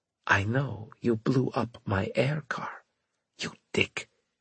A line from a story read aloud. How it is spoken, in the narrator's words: she whispered harshly